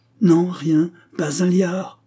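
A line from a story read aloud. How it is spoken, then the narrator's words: Furious shouting. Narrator (French): criait-il avec fureur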